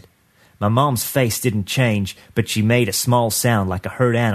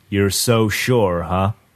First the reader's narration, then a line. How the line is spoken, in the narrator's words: My uncle spoke up in that slow, lazy drawl he uses when he breaks up a fight